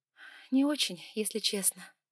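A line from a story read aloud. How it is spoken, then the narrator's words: Sigh. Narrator (Russian): вздохнула я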